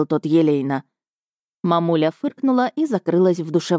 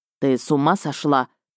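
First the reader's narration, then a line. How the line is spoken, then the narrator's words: Attempted growl. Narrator (Russian): попытался рыкнуть бывший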